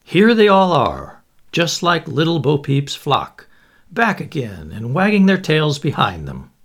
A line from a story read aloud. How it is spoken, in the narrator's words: said Lord Cadaham with a deep sigh